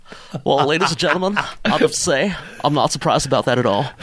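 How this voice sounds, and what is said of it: Poor imitation of another person's voice. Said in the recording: “That was a terrible impersonation of Bill Clinton. ... Bad impressions.”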